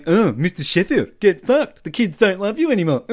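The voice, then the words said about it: Imitates another person's voice. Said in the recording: “that voice of Fran there, that was a great voice... That was a great impression.”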